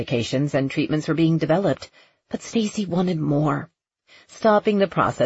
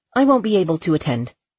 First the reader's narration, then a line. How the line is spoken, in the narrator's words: she said firmly